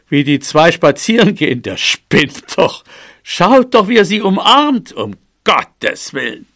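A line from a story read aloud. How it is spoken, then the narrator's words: Called out. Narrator (German): rief Nummer eins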